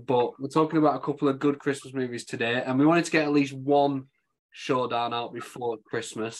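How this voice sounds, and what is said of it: Slightly croaky, rough voice. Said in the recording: “My my throat was like sand ... My throat's still a bit croaky, so I apologise if my voice sounds dodgy.”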